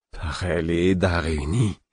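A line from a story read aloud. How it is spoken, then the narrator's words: Moaning. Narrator (French): fis-je dans un gémissement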